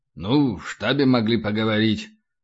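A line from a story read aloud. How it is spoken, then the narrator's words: Continued grumbling. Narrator (Russian): продолжал бурчать полубой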